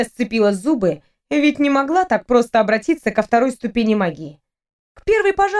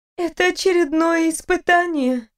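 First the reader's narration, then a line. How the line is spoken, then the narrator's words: Tired question. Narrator (Russian): устало спросила Фриза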